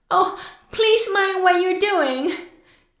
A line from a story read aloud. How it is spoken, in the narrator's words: Cried Alice